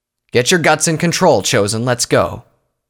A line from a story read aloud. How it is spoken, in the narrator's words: Pyrovalor called out to her